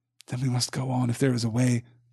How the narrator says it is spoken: said Frodo with a sigh

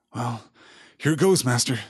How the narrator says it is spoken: Sam muttered to himself

